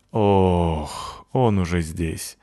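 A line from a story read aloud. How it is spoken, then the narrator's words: Resigned sigh, boy. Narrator (Russian): обреченно вздохнул мальчик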